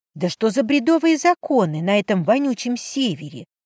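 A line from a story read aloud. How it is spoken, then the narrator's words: Hissed. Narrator (Russian): прошипела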